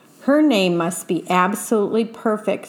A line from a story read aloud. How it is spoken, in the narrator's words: said her father